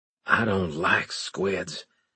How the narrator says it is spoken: I muttered

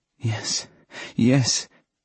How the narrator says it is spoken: she moaned

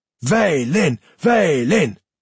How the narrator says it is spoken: Some of the boys were almost screaming now, Canis amongst them

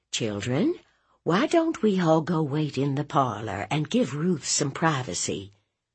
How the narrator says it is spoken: Mama cleared her throat and said in a sweet voice

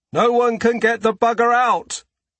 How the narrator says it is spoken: the voice yells back

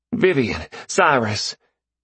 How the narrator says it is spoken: His voice was choked but exhilarated

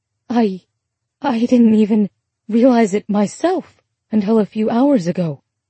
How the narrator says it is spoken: Ruby said, her voice shaking

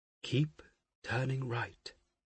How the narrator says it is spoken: Weena murmured

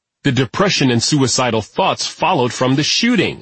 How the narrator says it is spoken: I said firmly

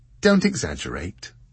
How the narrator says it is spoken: said Jessica cheerfully

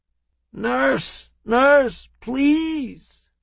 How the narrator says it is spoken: the black man groans

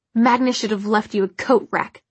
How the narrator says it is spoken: Clary spat

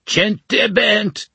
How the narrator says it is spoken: he shouted

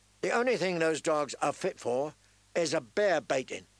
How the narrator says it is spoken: he said angrily

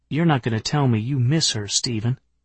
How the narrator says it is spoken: I said dryly

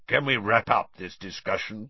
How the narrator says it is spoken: growled Moody

